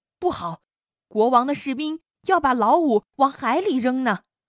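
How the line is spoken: Loud shout. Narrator (Chinese): 老二千里眼……大声叫道

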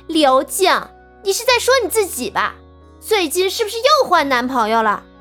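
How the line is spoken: Sneering. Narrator (Chinese): 毛小芳嘴角浮起一股冷笑

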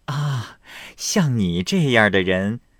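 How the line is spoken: Laughing. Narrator (Chinese): 凤姐笑道

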